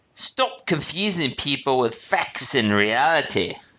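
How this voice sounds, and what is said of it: Put-on accent. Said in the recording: “Let me repeat that with the accent.”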